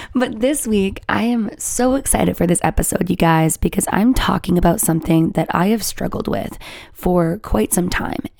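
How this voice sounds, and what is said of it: Raspy, slightly damaged voice. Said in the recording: “the sound of my voice ... is she sick? Does she have laryngitis? ... my voice is now a little bit raspy ... it's a little damaged right now”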